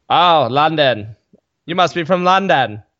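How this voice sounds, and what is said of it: Awful put-on accent. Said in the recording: “is that an accent? Awful accent.”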